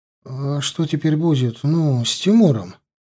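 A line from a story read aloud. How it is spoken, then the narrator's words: Timid question. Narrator (Russian): робко спросил Мишка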